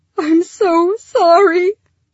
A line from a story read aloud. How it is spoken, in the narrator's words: Lyra sobbed